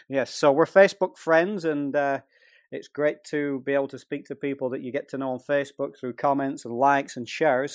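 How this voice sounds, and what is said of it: Speaks with an accent. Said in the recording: “I have an accent”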